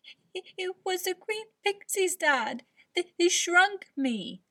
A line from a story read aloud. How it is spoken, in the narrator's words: Leo sobbed